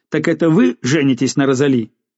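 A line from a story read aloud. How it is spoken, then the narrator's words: Asked sharply, losing patience. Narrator (Russian): Барон терял терпение и резко спросил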